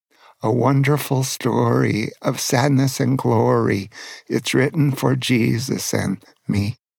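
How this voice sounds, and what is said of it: Emotional, choked-up singing voice. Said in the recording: “You can tell that makes me a little emotional.”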